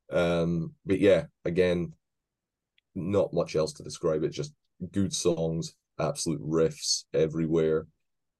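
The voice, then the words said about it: Scottish accent. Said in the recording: “my horrible Scottish accent”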